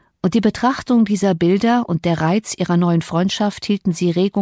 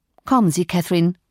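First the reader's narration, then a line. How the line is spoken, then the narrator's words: Plain. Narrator (German): sagte ich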